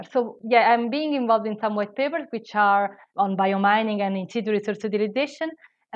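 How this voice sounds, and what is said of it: Italian accent. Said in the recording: “I am Italian, I don't know if you hear from my accent.”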